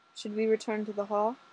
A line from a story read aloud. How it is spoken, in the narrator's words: Fraser asked her, and his voice was kind